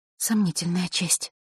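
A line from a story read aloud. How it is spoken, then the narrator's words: Girl's mutter. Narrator (Russian): пробормотала девочка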